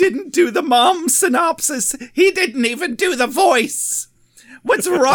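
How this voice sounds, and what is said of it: Usual voice. Nothing is said of it.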